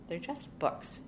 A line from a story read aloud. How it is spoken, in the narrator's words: Charlie replied irritably